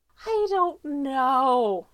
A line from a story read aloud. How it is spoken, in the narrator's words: Stiles whines